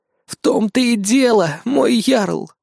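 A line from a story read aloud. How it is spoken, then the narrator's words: Old woman's sigh. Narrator (Russian): вздохнула старуха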